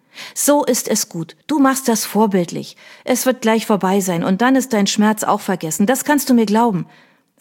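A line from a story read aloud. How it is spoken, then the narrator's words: Firm voice. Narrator (German): erklärte sie mit fester Stimme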